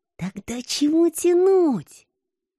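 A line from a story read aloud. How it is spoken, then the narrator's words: Muffled hiss. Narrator (Russian): Прикрыв рот рукой, зашипела я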